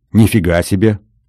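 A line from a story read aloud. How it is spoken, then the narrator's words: Thoughtful. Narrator (Russian): задумчиво сказал я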